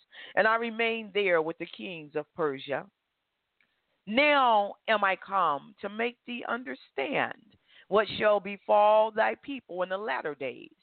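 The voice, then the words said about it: Slightly hoarse voice. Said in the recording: “I'm still a little hoarse.”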